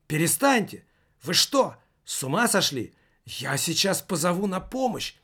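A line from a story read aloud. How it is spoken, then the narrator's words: Exclaiming. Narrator (Russian): воскликнула она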